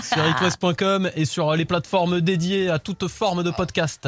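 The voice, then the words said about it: Put-on southern French accent. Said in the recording (French): “tu prends l'accent du Sud comme ça ... je prends l'accent du Sud”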